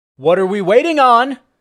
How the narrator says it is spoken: barked

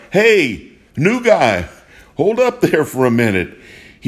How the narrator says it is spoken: Suddenly, Coach Riley cried out

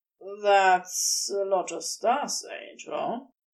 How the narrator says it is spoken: Crowley mutters

